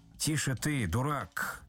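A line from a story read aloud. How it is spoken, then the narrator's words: Menacing. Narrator (Russian): сказал Остап грозно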